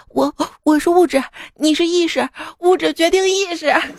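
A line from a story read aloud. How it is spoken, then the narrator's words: Trembling, tearful, frightened girl. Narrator (Chinese): 吓坏了，小姑娘用颤抖的哭腔重复着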